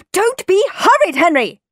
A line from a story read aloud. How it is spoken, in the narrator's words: yelled Mum